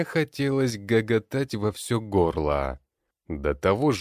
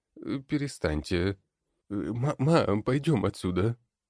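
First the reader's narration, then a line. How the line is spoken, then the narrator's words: Whisper in ear. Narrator (Russian): Шептал на ухо Ярослав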